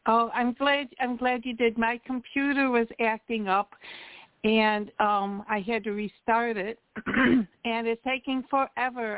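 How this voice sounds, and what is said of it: Hoarse, croaky throat. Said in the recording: “I have a frog in my throat”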